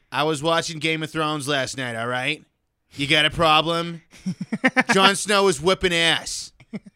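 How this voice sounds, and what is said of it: Put-on Boston accent, old woman. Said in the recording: “I can base it off my grandmother, which just sounds like me doing a Boston accent.”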